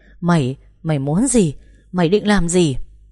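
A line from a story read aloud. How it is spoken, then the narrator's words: Panicked shriek. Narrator (Vietnamese): Thịnh lập tức hét toáng lên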